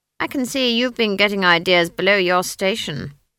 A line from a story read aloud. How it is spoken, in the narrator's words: said coldly